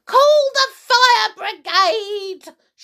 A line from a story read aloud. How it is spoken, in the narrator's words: she shouted suddenly